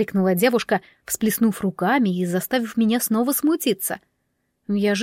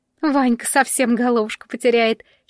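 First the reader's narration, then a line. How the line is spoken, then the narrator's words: Giggling. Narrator (Russian): хихикнула Олеська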